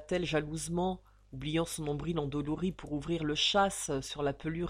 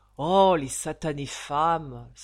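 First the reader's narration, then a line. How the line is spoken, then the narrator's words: Annoyed sigh. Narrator (French): soupira Ragdal dans une protestation ennuyée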